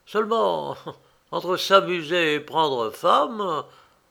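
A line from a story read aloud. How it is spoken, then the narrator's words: Sneering. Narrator (French): ajouta-t-il en ricanant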